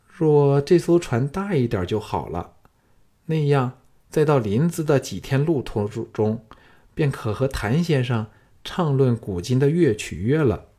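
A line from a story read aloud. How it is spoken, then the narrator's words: Reluctant sigh. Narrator (Chinese): 萧月潭等仍是依依不舍，芸娘更是舍不得他走，叹道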